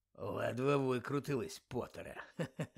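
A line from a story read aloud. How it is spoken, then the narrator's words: Muttered. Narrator (Ukrainian): пробурмотів він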